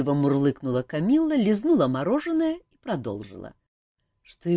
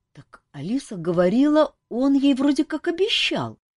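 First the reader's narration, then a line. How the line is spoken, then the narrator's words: Uncertain objection. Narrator (Russian): неуверенно возразила маркиза Ванчир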